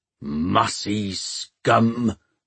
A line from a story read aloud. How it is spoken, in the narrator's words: growled Peavy